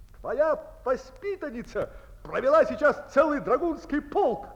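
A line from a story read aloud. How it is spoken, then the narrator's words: Shouting. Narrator (Russian): кричал он своей сестре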